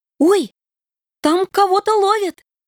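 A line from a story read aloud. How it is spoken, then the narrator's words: Interested squeal. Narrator (Russian): Заинтересованно взвизгнула Вероника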